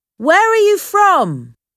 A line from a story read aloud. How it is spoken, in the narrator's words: Tom Platt shouted to the men in the other ship